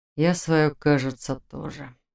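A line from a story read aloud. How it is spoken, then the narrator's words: Barely audible mutter. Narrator (Russian): едва слышно пробормотал Фарлак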